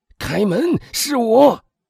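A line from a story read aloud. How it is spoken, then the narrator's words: Calling out. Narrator (Chinese): 威尔夫喊道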